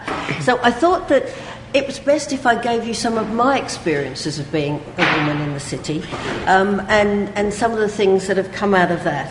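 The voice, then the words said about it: Australian accent. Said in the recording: “as you can hear from my accent, some of you, I'm Australian ... I haven't lost the accent.”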